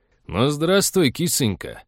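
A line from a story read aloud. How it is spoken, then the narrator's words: Cheerful loud bark, fat man. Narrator (Russian): весело гаркнул толстяк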